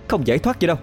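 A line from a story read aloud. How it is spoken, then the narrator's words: Harsh, through gritted teeth. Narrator (Vietnamese): Cô gằn giọng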